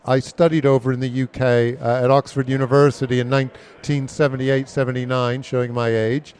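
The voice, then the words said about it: American accent. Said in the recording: “You can tell I have an American accent.”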